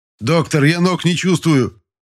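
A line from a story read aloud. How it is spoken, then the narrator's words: Uncontrolled shout. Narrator (Russian): Не сдержался, закричал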